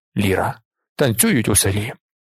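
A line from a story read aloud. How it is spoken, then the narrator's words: Whisper. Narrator (Ukrainian): Зорбас ... прошепотів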